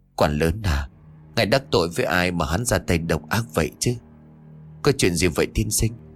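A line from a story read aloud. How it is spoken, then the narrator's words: Sighing. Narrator (Vietnamese): Thư sinh liền thở dài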